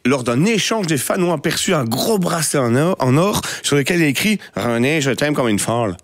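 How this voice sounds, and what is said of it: Put-on slight Québécois accent. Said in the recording (French): “je voulais faire l'accent pour la chronique ... l'accent un petit peu québécois”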